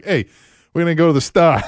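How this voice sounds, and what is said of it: Put-on Boston accent. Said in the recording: “I picked up that damn accent just being there a couple weeks ... Boston ... Maine”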